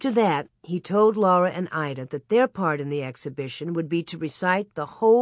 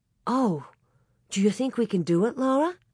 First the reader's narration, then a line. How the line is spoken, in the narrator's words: Ida gasped